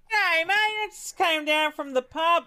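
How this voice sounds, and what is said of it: Exaggerated Australian accent. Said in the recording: “Was that your accent? What the fuck was that? ... That's my real Australian accent.”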